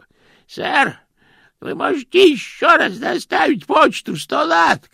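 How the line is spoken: Shout. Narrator (Russian): крикнул он

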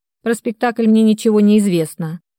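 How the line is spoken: Dry, curt. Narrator (Russian): сухо отрубил Максим

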